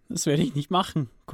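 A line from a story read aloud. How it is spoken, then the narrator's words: Panting. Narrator (German): keuchte Cody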